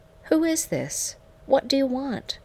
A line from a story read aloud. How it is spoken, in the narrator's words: asked, my voice shaky